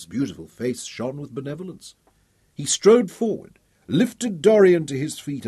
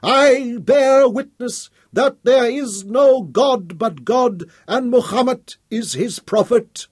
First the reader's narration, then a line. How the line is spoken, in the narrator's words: used this new strength to shout aloud